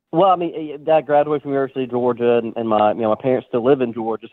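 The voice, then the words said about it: Southern drawl. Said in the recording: “his drawl ... from Georgia, from the South”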